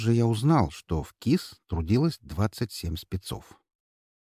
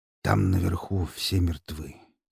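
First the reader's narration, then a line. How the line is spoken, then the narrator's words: Quiet. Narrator (Russian): тихо произнес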